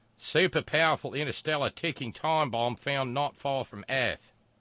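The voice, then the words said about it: Bad put-on Australian accent. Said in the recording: “my terrible Australian accent”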